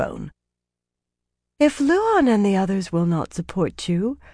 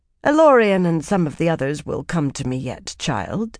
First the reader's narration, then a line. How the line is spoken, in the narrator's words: she said smoothly